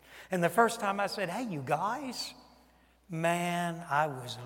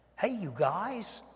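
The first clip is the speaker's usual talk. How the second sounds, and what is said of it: Put-on Yankee accent. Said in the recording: “I had a Yankee accent bad.”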